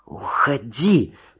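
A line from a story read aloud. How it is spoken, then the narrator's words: Hissing. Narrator (Russian): прошипела она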